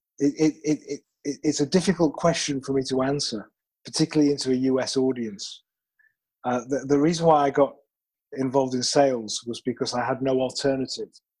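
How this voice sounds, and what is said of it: British English accent. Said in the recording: “I am originally from the United Kingdom. I promise this is a natural accent ... Nice accent.”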